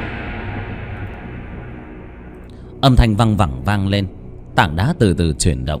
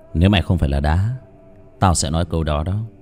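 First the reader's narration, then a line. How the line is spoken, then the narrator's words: Smiling. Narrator (Vietnamese): Bác cổ mỉm cười nói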